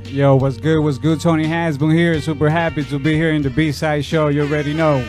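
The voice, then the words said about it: Dominican accent. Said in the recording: “the accent. I hear it ... We're from Dominican Republic. We're born and raised over there”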